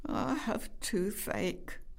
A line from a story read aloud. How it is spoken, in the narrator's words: moaned Greg with a little sob